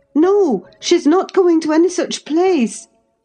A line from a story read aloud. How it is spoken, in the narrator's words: I cried, struggling to release my arm, which he had seized